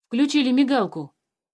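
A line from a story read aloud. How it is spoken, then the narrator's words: Exclaiming. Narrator (Russian): воскликнул Алёша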